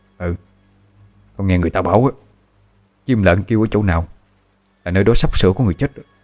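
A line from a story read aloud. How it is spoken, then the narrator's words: Trembling reply. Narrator (Vietnamese): Gã kia cũng run run đáp lại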